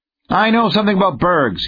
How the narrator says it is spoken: he snapped

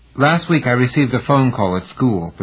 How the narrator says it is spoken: Patricia said

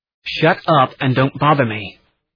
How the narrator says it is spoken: he said

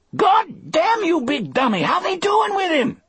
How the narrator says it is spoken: Delacroix screamed

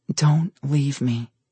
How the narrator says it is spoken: she whispered

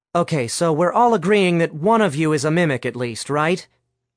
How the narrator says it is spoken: Alice asked

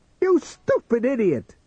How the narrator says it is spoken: he cried to himself

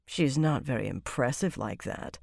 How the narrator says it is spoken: Savannah muttered, frowning into her goblet now

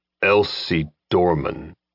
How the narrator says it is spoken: The head of Mamba's six-man reception committee growled out Dorman's name

